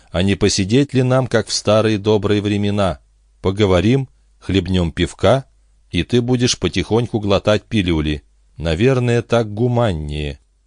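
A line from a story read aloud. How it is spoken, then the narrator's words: Even voice. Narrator (Russian): ровным голосом начала Бобби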